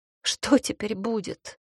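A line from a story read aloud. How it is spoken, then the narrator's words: Tearful after sobbing. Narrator (Russian): прорыдавшись, спросила я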